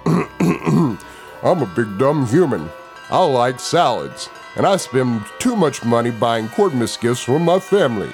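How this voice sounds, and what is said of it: Goblin mimicking a dumb human voice. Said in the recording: “Do the human voice, the big dumb human voice.”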